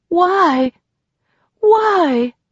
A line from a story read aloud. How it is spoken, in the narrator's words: sobbed as she sank to her knees and rocked back and forth